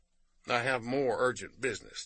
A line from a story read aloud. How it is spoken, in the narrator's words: July said rather solemnly